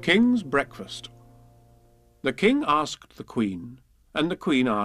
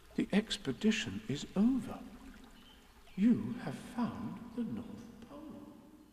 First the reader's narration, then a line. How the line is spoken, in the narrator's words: said Christopher Robin solemnly